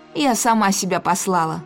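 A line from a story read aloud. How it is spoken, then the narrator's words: Snapping. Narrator (Russian): огрызнулась Исадора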